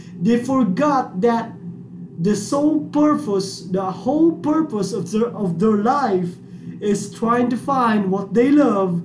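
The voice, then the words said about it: Speaks English with an accent. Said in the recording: “sorry for my accent”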